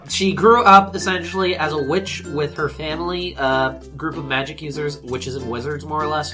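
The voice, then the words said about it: Slightly weird, congested voice. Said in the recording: “my voice sounds a little weird. I'm unfortunately picking up a bit of a cold right now”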